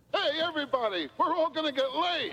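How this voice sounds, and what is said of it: French-Canadian accent. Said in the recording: “in a French-Canadian accent”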